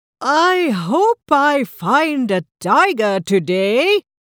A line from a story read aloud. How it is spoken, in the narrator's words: Rita said loudly